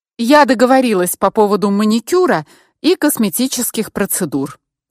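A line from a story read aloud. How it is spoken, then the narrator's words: Harsh tone. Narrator (Russian): жестким тоном сообщила Яна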